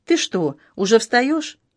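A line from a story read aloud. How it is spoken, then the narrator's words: Frightened question. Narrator (Russian): Алена ... испуганно спросила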